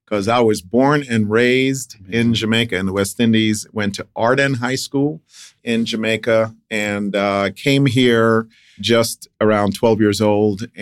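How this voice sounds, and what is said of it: Jamaican accent. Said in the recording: “I can hear the accent coming out as soon as you start talking about Jamaica.”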